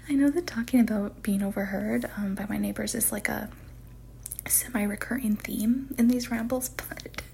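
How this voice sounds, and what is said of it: Whispering. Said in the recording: “I'm whispering now because I'm a little sheepish”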